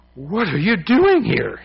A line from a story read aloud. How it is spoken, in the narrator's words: exclaimed, as if he had seen a ghost